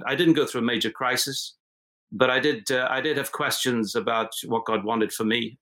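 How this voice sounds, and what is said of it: Unusual mixed, hard-to-place accent. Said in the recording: “my weird accent. It's not totally anything”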